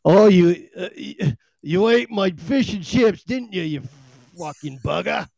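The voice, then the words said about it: Put-on British accent. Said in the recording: “Even when I say it in a British accent”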